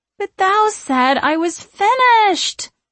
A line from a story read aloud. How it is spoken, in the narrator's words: Sarah whines